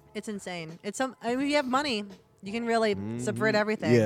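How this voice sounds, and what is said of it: Usual voice. Nothing is said of it.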